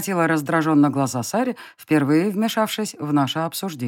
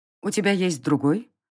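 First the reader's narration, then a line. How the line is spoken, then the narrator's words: Cold female inquiry. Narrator (Russian): холодно поинтересовалась воительница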